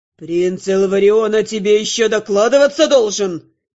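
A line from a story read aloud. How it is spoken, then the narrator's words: Barked. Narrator (Russian): рявкнул Терн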